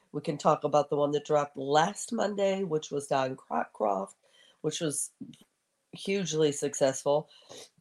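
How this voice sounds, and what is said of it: Congested, stuffy-nosed voice. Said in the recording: “I have a cold ... I can hear it in my own voice.”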